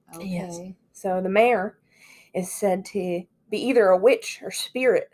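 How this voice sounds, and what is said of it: Put-on spooky southern-sounding accent. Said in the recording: “What are you saying with an accent right now? ... I'm trying to be spooky. ... Spooky means southern accent.”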